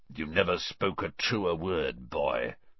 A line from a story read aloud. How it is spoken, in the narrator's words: someone muttered dryly to Dumbledore behind Harry